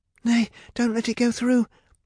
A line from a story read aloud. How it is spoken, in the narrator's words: begged Rapunzel